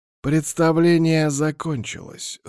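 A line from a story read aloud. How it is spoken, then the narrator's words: Dry. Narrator (Russian): сухо произнес Владимир Ильич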